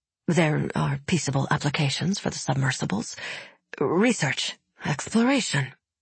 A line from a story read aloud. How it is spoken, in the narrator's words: David mumbled